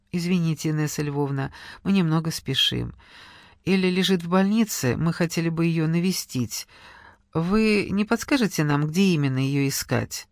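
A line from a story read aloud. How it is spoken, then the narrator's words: Strained calm, friendly. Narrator (Russian): Денис изо всех сил старался говорить спокойно и приветливо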